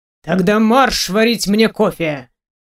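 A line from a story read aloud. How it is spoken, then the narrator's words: Barked shout. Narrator (Russian): гаркнул он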